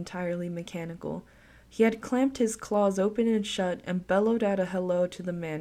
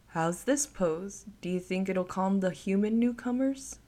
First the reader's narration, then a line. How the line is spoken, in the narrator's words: The man laughed